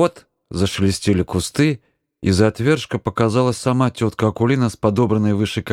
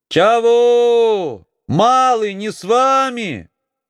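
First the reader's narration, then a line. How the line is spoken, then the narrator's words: Distant shouting. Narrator (Russian): кричала Акулина из-за отвершка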